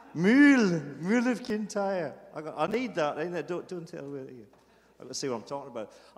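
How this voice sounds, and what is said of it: Speaks with a noticeable accent. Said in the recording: “oh my God, I love your accent. I say, no, I talk proper. It's all you that have the accent.”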